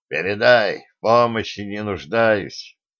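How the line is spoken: Grim speech. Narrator (Russian): мрачно сказал сигнальщику

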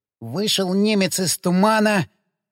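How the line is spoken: Very unsure whisper. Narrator (Russian): как-то уж очень неуверенно прошептал напалм

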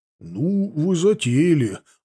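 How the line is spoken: Bewildered. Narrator (Russian): растерянно сказал отец

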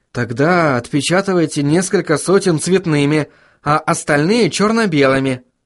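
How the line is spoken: Suggesting with a sigh. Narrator (Russian): предложила Сахариса и вздохнула

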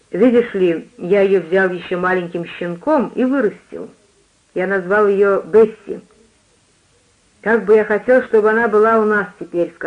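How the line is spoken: Plain. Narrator (Russian): сказал я

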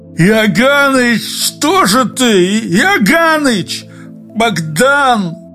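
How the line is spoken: Anguished moan. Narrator (Russian): Юрковский застонал, запрокинув лицо

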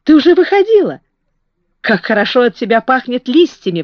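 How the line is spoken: Exclaiming. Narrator (Russian): воскликнул он

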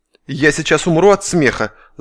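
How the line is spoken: Angry hiss. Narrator (Russian): зло прошипел санинструктор на медведя

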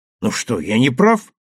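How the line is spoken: Confident shout. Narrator (Russian): уверенно крикнул Сергей

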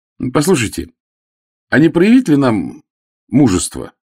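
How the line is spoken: Cheerful. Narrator (Russian): весело сказал он

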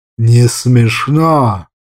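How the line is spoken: Growl. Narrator (Russian): рыкнул азиат

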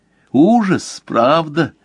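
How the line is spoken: Cheerful question. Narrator (Russian): весело спросила Кристина

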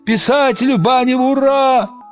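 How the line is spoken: Shout from crowd. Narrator (Russian): Кто-то в толпе заорал

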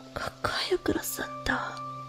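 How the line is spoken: Whisper. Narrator (Russian): прошептала она

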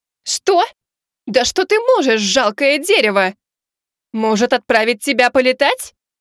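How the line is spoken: Shrill shout. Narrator (Russian): Визгливо выкрикнула Азимандия

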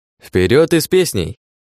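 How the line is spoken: Cheerful singsong. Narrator (Russian): бодро пропел лис

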